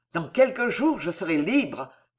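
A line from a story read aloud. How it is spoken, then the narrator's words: Exclamation. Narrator (French): s'écria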